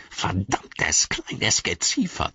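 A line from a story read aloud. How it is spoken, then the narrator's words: Hissed. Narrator (German): zischte er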